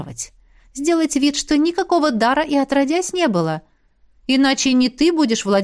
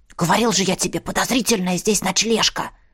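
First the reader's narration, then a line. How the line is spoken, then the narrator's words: Loud whisper. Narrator (Russian): громким шепотом сказал Канис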